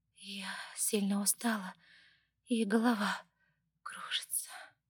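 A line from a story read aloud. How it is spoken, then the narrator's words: Sleepy mumble. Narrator (Russian): сонно пробормотала Ева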